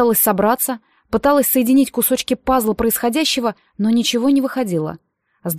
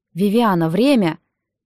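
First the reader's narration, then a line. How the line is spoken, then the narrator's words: Almost plaintive. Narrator (Russian): почти жалобно произнес Нолан Ридсби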